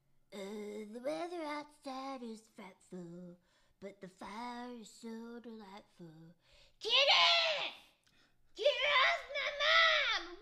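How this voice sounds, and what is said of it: Eric Cartman impression while singing. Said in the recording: “Would you do this next song in an Eric Cartman impersonation?”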